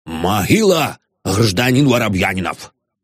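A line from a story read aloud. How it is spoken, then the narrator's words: Shouted. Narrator (Russian): прокричав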